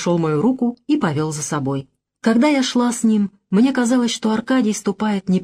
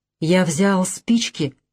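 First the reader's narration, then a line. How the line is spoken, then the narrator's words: Whispered. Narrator (Russian): прошептал Аркадий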